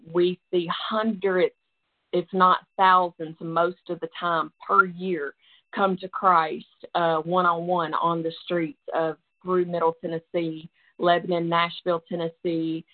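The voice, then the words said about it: Southern Tennessee accent. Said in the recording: “you can tell by my accent, but that's where I'm from, right outside of Nashville, Tennessee”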